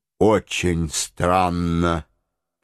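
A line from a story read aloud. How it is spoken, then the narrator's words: Mutter. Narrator (Russian): пробормотал майор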